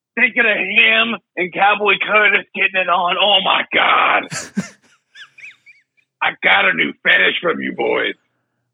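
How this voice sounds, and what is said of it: Devilish put-on voice. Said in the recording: “your voice is changing. You're turning it into the devil.”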